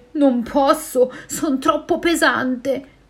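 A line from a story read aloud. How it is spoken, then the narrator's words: Whale, trembling voice. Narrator (Italian): la balena con voce tremante risponde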